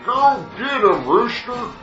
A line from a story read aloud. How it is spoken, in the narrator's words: wheezed the old fart